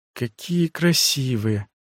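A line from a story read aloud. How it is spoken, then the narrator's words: Whisper. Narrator (Russian): прошептал Бинджи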